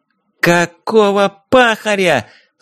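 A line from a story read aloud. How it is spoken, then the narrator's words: Yelling. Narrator (Russian): Заорала Дейзи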